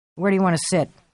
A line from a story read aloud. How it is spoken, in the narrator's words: Clark asked, his voice thin and uninterested, the voice of a man who still believes he might be dreaming